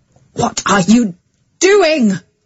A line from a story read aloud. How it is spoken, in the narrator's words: cried the father